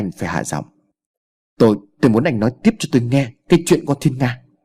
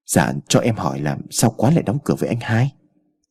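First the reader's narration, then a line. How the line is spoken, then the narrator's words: Soft, ingratiating question. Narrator (Vietnamese): Hai Thành thấy tình hình căng thẳng liền nhoẻn miệng cười lấy lòng, nhỏ nhẹ hỏi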